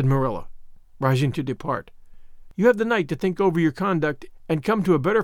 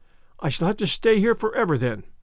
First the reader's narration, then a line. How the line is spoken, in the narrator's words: said Anne, mournfully